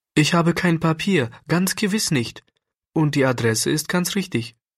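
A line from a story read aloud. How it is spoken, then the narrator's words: Fearful, pleading child. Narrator (German): sagte Klärchen so ängstlich und flehend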